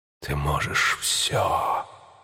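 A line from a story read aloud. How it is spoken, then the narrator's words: Whispering flame. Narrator (Russian): шептало пламя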